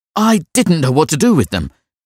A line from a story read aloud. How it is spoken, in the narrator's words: he cried, and his voice was that of an anxious boy